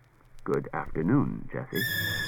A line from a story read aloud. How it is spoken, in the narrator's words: Daniil said in a low murmur